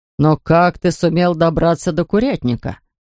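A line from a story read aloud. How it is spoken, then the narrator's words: Plain. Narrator (Russian): спросил он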